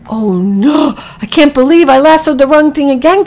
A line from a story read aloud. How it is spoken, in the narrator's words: cried Packy